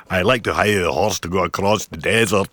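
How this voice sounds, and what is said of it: Put-on accent. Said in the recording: “I don't know why I'm doing this accent.”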